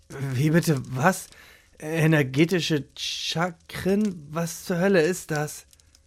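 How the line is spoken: Muttering to himself. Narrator (German): murmelte er halblaut zu sich selbst

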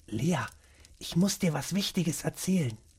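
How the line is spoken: Whisper. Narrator (German): flüsterte

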